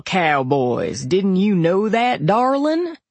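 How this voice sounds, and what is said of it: Thick Texas cowboy drawl. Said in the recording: “in a drawl so thick it sounded like you should be able to do a Texas two-step on it ... the out west accent”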